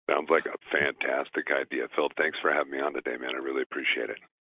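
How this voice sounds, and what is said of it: Polished radio announcer voice. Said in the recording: “the best radio voice ever”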